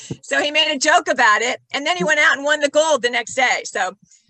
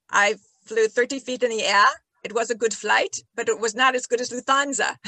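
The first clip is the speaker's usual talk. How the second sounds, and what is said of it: Thick put-on Austrian accent. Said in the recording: “in a thick Austrian accent”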